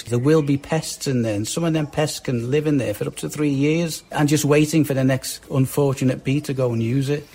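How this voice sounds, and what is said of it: Liverpool Scouse accent. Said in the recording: “If it sounded like some old Beatle interviews, that is a classic Liverpool accent. ... that's a Scouser there, Liverpudlian.”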